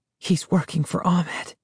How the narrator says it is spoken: whispered

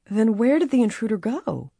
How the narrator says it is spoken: Bess asked shakily

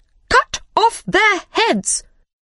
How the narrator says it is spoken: Suddenly, the queen shouted very loudly

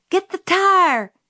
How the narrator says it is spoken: Jim hollered

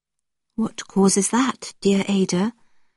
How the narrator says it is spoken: I asked gently

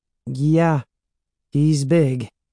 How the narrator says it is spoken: she said

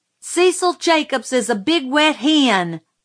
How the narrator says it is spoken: I yelled suddenly

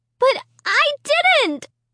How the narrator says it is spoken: I shrieked

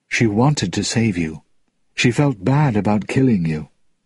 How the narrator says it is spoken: In a low voice, he added

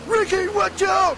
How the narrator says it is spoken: shouts Tony

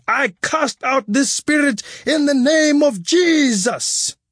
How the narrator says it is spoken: The pastor ... shouting

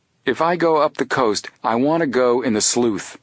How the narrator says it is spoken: Joe answered firmly

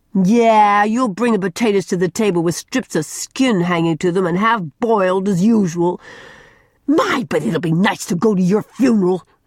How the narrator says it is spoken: shrieked Mary

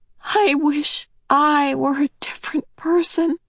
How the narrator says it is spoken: Meg said shakily

